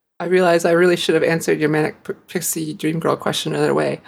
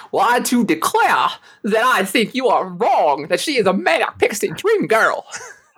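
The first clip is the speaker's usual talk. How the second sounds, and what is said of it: Southern Mark Twain-style accent. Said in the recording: “You are a braver co-host than I am, because I am not going to try the Mark Twain accent that Boimler and Rutherford did in this episode.”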